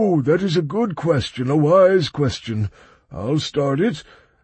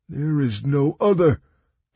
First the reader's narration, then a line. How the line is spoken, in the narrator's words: sighed the elder bitterly